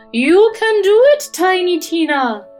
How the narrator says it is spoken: cried Madame Fairy

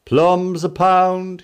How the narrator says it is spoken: he shouts

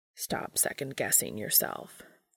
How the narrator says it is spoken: Cass grumbles

